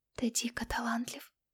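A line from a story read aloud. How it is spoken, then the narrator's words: Whisper. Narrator (Russian): шептала я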